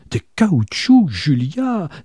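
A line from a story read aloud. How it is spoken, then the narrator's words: Crying out. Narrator (French): s'écria sa sœur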